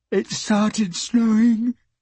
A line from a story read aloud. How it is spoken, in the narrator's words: Kate yawned